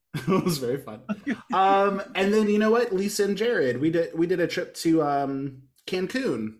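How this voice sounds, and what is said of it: Usual voice. Nothing is said of it.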